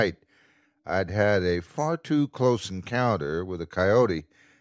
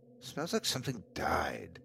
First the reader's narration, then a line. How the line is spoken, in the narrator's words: I muttered to myself